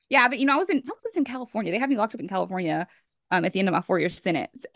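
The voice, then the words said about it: Thick Southern US accent. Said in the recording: “the more my accent's coming out ... It's so thick.”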